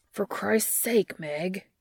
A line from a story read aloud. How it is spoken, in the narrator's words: Dean growls